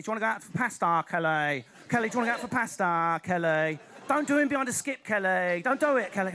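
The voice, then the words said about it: Exaggerated Essex accent. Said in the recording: “the Essex accent... we've got all of the round, moronic vowels of London, but with a horrible, clipped, camp precision at the end of the word”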